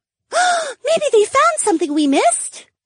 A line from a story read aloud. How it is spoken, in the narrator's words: Valerie gasped